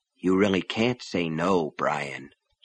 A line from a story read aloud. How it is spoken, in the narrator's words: he said softly